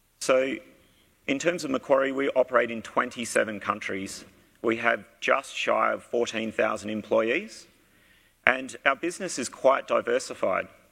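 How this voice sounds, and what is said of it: Australian English accent. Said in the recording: “you can probably pick from my accent, I am from Australia.”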